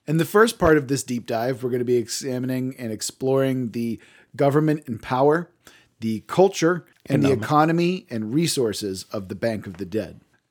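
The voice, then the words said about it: Froggy, hoarse voice. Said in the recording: “my voice is more than a little froggy ... I have a dying voice”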